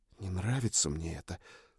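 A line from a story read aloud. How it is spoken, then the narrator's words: Whisper. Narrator (Russian): прошептала она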